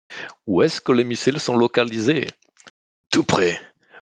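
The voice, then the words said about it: Bad fake Russian accent, dubbed. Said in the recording (French): “population euh, russophone ... cet accent euh, déplorable, mais c'est plutôt une tentative d'imitation d'un doublage tout pourri d'un film des années 80”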